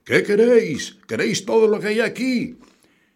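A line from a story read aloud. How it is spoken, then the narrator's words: Shouting again. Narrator (Spanish): gritó de nuevo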